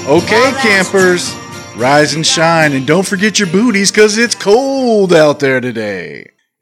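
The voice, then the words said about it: Radio DJ style voice. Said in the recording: “I'm talking like a radio DJ for some reason.”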